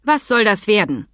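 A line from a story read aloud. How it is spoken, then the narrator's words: Stern question. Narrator (German): fragte sie streng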